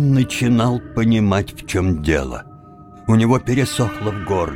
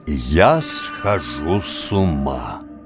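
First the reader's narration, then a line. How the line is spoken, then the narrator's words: Slow, almost solemn. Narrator (Russian): сказал медленно, почти торжественно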